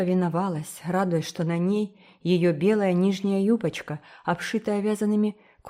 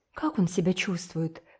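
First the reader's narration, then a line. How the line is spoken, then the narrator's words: Convulsive gasping breath. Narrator (Russian): судорожно выдохнула Ди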